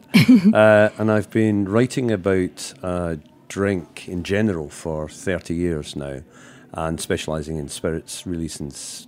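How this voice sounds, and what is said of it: Glasgow Scottish accent. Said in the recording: “I'm from Glasgow in Scotland. As you can probably tell from the accent.”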